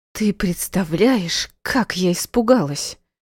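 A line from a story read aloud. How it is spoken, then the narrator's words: Forced out between sobs. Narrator (Russian): Между всхлипов выдавила я сквозь зубы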